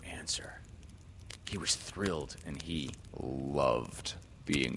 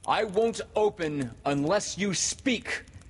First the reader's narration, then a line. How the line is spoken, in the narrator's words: Peter cried